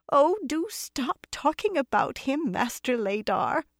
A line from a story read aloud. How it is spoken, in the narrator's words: a woman's voice answered in a quaver that seemed well practiced